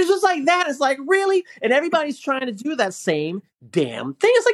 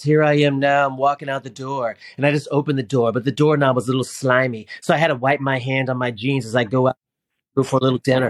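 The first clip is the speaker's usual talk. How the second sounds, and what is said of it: Monotone imitation of a travel vlogger. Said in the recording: “he's got that monotone voice”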